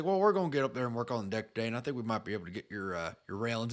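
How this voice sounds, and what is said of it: Poor put-on Southern accent. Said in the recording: “pretty pretty piss poor Southern accent”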